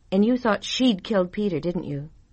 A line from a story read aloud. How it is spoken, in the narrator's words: gave a little sigh